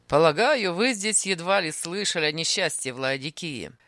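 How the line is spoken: Mocking. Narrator (Russian): сказал он насмешливо

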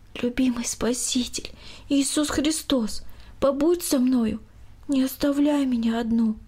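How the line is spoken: Quiet prayer. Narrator (Russian): Екатерина тихо произнесла

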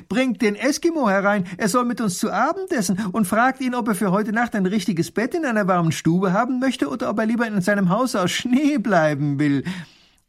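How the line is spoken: Calling out. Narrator (German): ruft er

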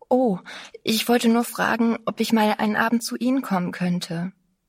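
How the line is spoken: Breathless, trembling. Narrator (German): zitterte, und sagte ganz atemlos

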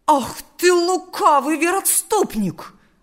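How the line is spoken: Angry exclamation. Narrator (Russian): воскликнул растерженный отец Василий

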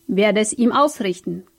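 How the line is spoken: Old man growling. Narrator (German): knurrte der alte Portier

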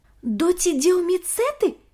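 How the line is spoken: Exclamation. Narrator (Russian): воскликнул Ник

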